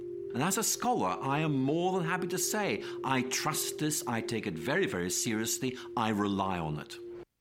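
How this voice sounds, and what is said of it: Speaks with a striking accent. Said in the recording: “just even the accent there, I think I just trust him immediately with the... the accent's amazing”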